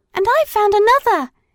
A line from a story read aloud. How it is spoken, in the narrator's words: shouted Madeline